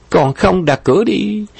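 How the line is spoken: Laughing. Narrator (Vietnamese): Nhậm Mi Mi bật cười nói

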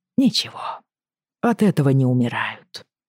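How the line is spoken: Muttered. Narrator (Russian): пробормотал он Джейми

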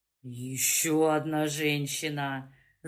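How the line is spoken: Groaning. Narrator (Russian): застонал Добрынин

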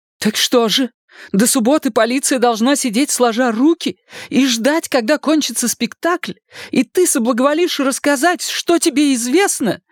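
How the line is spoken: Desperate exclamation. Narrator (Russian): в отчаянии воскликнула Шарлотта

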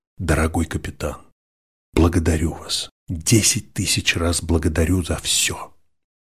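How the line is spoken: Whispered. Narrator (Russian): Генри шепнул капитану

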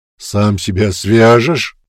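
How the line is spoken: Orc's growl. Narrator (Russian): рыкнул орк

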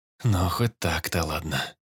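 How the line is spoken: Sighed. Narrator (Russian): вздохнул

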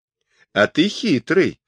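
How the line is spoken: Soft laughing. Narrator (Russian): тихо засмеялась Борте

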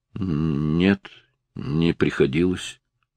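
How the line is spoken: Mumbling. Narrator (Russian): пробормотал он наконец

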